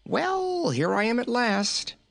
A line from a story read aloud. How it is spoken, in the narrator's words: he cried in a merry voice